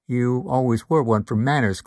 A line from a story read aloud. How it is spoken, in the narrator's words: Cole replied, keeping his voice flat